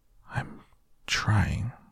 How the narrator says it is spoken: whispered, his voice pained

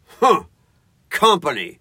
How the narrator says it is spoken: The badger grunted

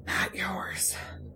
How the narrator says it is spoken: she whispered

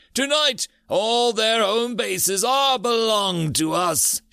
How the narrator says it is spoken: she cried

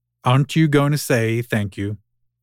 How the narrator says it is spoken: said the voice

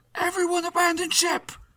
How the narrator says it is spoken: I'm going to yell to everyone

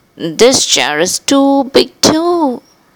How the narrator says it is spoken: whined

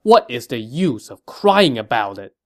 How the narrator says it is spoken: He said angrily

